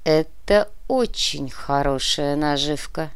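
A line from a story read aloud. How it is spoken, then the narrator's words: Slow. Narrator (Russian): медленно произнес Сантьяго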